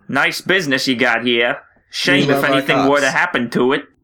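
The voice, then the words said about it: Put-on mafia gangster accent. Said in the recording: “That was my mafia accent.”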